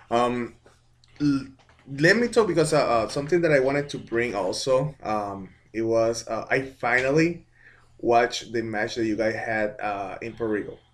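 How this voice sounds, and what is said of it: Puerto Rican accent. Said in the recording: “everybody knows I'm Puerto Rican. You can tell because of the accent.”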